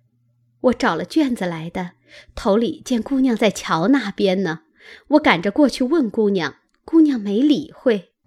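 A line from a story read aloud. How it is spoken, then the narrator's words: Ingratiating, apologetic smile. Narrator (Chinese): 紫娟陪笑道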